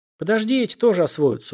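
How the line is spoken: Sighing. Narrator (Russian): вздохнул Эрик

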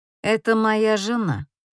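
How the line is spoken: Rude, curt retort. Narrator (Russian): как обычно грубо отрезает Эшфорд

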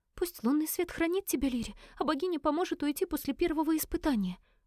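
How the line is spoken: Sister's babbling murmur. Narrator (Russian): пролепетала сестра

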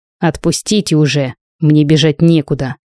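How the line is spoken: Angry. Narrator (Russian): Сказал Марк, злобно озираясь

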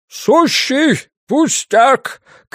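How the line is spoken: Shouting downward. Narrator (Russian): крикнул вниз Глен

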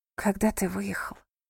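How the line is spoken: Whisper into ear. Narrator (Russian): прошептала Роуз ему на ухо

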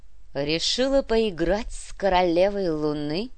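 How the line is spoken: Deep husky sinister female voice. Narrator (Russian): Голос у женщины был грудной, с легкой хрипотцой, зловещий

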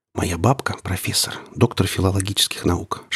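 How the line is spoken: Whisper in the ear. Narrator (Russian): шепнула мне на ухо Женя

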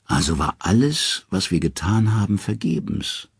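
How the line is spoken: Weary. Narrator (German): sagt Odin müde

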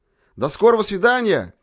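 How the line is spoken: Shouting. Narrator (Russian): крикнул

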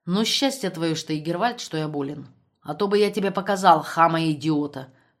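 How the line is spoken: Grumbling. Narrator (Russian): проворчал Штребль

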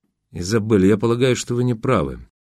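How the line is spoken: Soft speech. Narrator (Russian): мягко заговорил Полуянов

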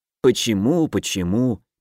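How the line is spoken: Reluctant grumble, calming down. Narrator (Russian): неохотно проворчал Кир, понемногу успокаиваясь

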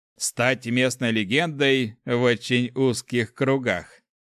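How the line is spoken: Chuckling. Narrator (Russian): хохотнул правитель Дракара

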